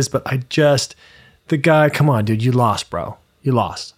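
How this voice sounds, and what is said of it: Imitates another person's voice. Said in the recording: “that your Trump impression”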